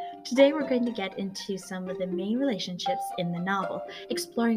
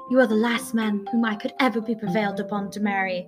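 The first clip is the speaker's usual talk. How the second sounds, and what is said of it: Put-on accent while quoting. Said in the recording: “sorry for the accent,”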